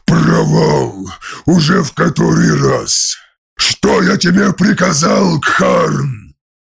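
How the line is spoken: Growled. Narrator (Russian): Рыкнул

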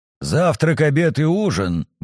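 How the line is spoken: Gruff grumble. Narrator (Russian): буркнула орка

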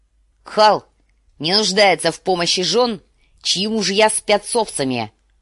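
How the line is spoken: Barked. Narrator (Russian): рявкнул Квота

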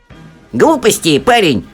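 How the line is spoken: Barking. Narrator (Russian): рявкнула мисс Типс

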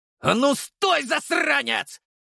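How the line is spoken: Yelling. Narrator (Russian): Заорал Артем

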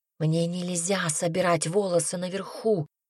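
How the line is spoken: Whispering woman. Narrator (Russian): прошептала она

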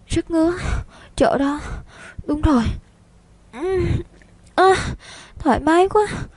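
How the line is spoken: Moaning. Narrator (Vietnamese): rên rỉ thành tiếng

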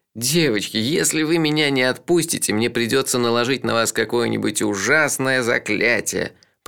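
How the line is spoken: Moan, trying to sound stern. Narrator (Russian): простонал я, пытаясь придать своему голосу суровые интонации

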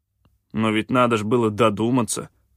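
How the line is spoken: Grumbled. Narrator (Russian): проворчал Кианг

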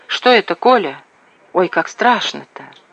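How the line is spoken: Frightened whisper. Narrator (Russian): Женяра прошептала

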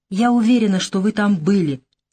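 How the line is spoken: Heated exclamation. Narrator (Russian): с некоторой горячностью воскликнула Наташа

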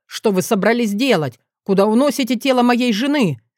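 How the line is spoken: Hysterical scream. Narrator (Russian): закричал он истерично

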